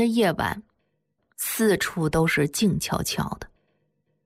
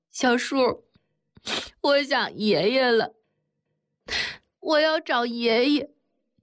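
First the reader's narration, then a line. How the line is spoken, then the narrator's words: Crying. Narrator (Chinese): 哭着对铁蛋说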